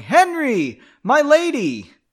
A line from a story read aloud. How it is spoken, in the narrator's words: Another voice joined in, yelling